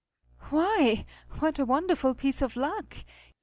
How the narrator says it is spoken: he cried

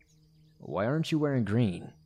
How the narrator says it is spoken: asked me, slurring his words

